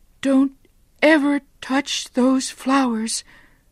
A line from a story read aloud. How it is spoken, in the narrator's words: she cried